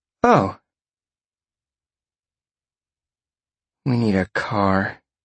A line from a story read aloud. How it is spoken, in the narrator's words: Roxy grumbled